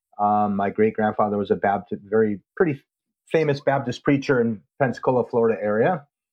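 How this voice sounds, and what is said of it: Northern American accent. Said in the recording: “my Yankee accent”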